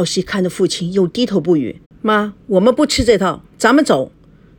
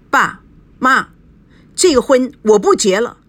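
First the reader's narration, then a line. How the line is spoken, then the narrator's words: Angry. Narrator (Chinese): 赵熙怒火不打一处来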